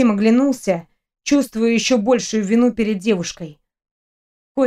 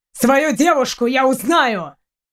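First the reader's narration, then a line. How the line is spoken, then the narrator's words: Bark. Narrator (Russian): рявкнул Костя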